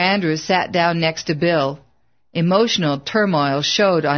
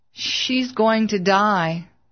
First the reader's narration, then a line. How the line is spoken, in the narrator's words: his voice quivered